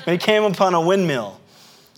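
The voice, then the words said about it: Southern American accent. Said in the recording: “there's my southern accent.”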